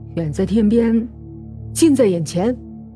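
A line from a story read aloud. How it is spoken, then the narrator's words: Teasing with a laugh. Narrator (Chinese): 李启明突然打趣一笑说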